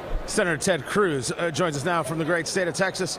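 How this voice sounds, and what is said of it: Deep baritone radio announcer voice. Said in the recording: “radio voice where your voice drops an octave ... It was this baritone.”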